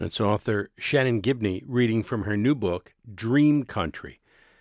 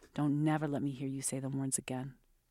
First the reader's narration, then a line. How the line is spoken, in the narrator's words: said quietly